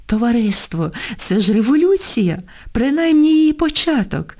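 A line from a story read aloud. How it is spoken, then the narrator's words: Joyful. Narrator (Ukrainian): радісно говорив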